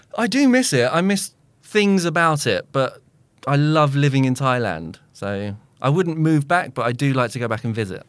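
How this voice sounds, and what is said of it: British accent. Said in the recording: “His only British thing is his accent.”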